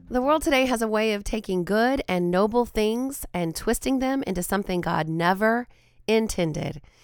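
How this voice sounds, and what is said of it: Raspy, hoarse voice. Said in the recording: “I am feeling a little under the weather, you might be able to hear it in my voice. I've got the raspy voice going today.”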